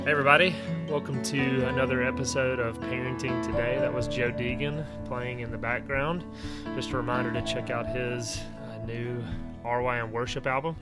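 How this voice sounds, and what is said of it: Slightly deeper, congested voice. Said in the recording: “You sound like your voice is a little deeper ... I've got a little bit of a cold”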